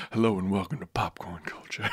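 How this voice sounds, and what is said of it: Low, smooth jazz radio host voice. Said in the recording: “I could give you my host voice ... jazzy man podcast voice ... my jazz radio voice ... the low tremble of my jazz voice”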